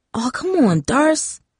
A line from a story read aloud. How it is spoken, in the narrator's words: Tara whispered